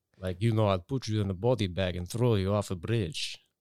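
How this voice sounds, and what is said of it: Put-on Russian accent. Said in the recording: “if I'm doing a Russian voice, I have to see a Russian in my head”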